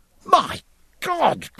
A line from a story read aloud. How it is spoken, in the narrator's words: cried Jack